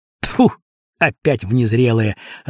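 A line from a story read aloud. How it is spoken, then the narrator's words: Irritated. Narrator (Russian): раздраженно сказал один стрелок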